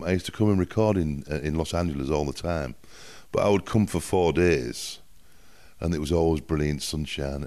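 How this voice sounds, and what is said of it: Northern English accent. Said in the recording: “my accent is from the north of England, so it's a little bit different from the from the southern accent.”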